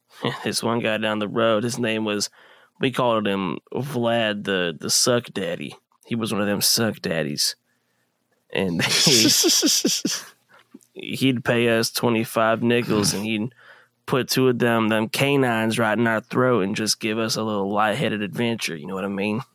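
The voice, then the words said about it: Imitates another person's voice. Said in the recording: “You do a really good Theo Von impression.”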